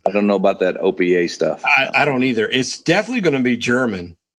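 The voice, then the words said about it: Kentucky hillbilly accent. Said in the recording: “my Kentucky Hill Jack accent”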